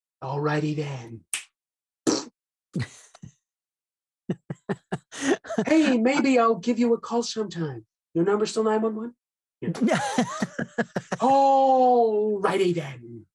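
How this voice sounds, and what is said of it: Comedic movie character impression. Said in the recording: “my greatest like celebrity impression is the Ace Ventura”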